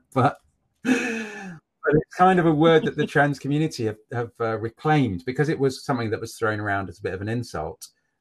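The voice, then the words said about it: Posh-sounding English accent. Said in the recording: “my accent ... I sound, to a lot of people, I sound posh”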